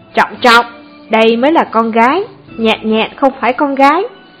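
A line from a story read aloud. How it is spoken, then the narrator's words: Glaring angry shout. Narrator (Vietnamese): Liễu Hồng Phi trợn mắt quát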